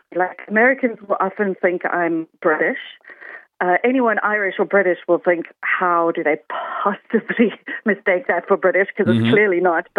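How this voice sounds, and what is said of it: South African accent. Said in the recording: “I'm South African. And actually, usually my accent is an icebreaker for conversations because people never guess it right ... they think it's New Zealand or they think it's Australia ... sometimes even Norwegian”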